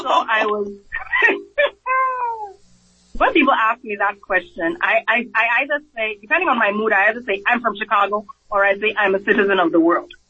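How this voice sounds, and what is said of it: Speaks with a noticeable accent. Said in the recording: “you mentioned your accent.”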